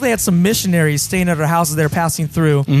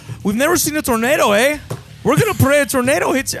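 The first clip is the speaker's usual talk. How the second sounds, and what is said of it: Poor Canadian accent impression. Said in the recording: “They were from Canada ... I'm not doing a very good impression”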